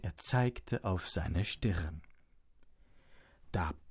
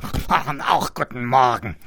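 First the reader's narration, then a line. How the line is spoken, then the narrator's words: Pig's grunt. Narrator (German): grunzte das Schwein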